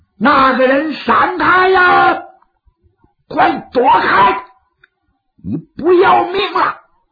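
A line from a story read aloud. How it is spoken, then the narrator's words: Sudden shout. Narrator (Chinese): 有人喊了一嗓子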